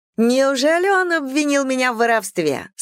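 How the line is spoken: Laughing question. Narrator (Russian): спросила Имаджин, смеясь

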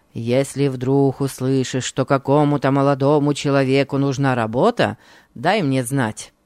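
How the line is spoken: Grumbling. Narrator (Russian): проворчал он

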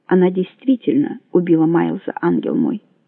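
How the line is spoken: Quiet. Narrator (Russian): сказал он тихо

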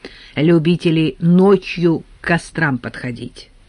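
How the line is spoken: Calm explanation. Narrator (Russian): спокойно объяснил Евтей

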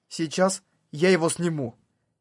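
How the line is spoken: Quiet, plain statement. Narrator (Russian): Синон тихо и просто заявила

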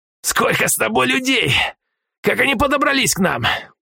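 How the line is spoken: Growl. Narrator (Russian): прорычал Полос

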